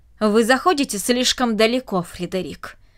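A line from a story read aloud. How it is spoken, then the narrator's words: Irritated. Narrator (Russian): раздраженно произнесла она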